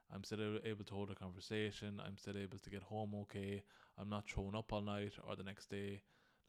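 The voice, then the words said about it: Groggy, tired voice. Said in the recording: “I'm a bit groggy today and you can hear it in my voice ... I'm sure you can hear it in my voice. I just feel a bit tired.”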